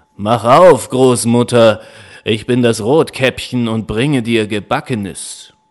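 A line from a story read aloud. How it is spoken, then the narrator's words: Wolf calling out. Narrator (German): Kurz danach klopfte der Wolf an und rief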